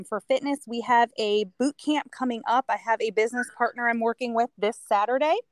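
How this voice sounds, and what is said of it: Hoarse, strained voice. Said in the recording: “excuse me, I'm losing my voice”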